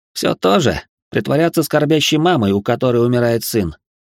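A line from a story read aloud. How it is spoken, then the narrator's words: Smirking. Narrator (Russian): хмыкнул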